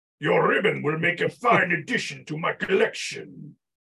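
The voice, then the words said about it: General Grievous character voice impression. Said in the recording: “to do a good ... General Grievous impersonation.”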